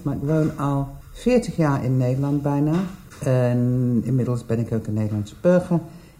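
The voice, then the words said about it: English accent speaking Dutch. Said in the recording (Dutch): “Ik ben Engels, dat hoor je waarschijnlijk uit mijn accent.”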